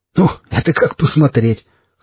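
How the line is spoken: Chuckling. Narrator (Russian): хохотнул напарник

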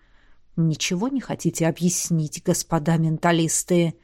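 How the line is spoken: Hissed. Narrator (Russian): прошипел Эдмунд

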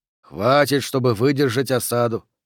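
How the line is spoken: Mutter. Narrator (Russian): пробормотал Д'Агоста

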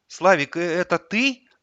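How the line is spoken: Unsure question. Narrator (Russian): неуверенно спросила она

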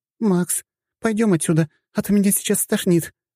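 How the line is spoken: Strained, nauseated. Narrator (Russian): выдавила из себя разом позеленевшая Лазарева

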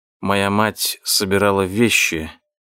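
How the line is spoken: Barely audible. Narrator (Russian): едва слышно произнес я

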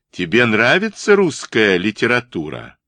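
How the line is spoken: Loud question in German. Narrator (Russian): громко спросил Хорст уже по-немецки

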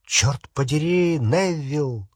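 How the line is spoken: Exclaiming. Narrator (Russian): воскликнул Рон

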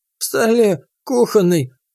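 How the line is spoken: Old man's faint rustling whisper. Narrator (Russian): обмирающим голосом прошелестел старец

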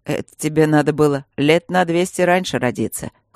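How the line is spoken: Smirking. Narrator (Russian): хмыкнул Свидерский

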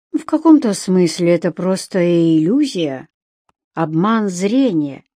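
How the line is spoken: Thoughtful. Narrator (Russian): задумчиво произнес Брэд

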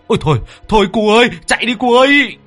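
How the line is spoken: Panicked shriek. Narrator (Vietnamese): ông Cạc rú lên một cái

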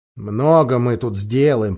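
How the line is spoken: Grumbling. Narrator (Russian): проворчал Эдмунд

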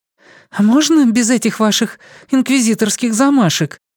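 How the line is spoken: Disapproving exclamation. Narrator (Russian): Не скрывая своего неодобрения, воскликнула она

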